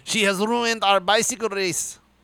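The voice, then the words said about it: Bad put-on French accent. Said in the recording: “This is the worst French accent”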